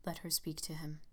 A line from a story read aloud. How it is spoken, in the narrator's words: said Gabriel in a dull voice